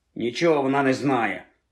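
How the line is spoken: Muttering. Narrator (Ukrainian): буркнув вслід їй Рон

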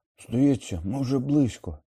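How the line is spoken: Hoarse rasp. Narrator (Ukrainian): прохрипів Рон

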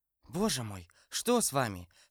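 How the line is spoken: Whispered. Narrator (Russian): сказала шепотом Кэти

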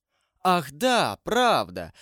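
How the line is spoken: King exclaiming. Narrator (Russian): воскликнул король Наварский

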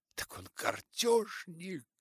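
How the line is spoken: Exclamation. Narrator (Russian): воскликнула она

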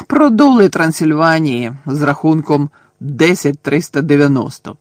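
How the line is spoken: Gloomy mutter. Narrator (Ukrainian): понуро буркнув Чарлі

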